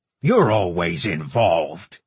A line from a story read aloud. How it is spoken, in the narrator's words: Durin barked